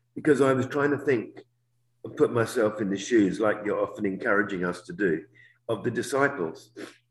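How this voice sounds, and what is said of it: Congested voice from a cold. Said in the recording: “I've got a bit of a cold, so my voice is funny.”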